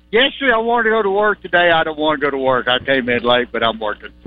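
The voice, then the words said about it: Sad, grumpy-sounding voice. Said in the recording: “does he sound sad? ... Why are you grumpy? Why are you upset?”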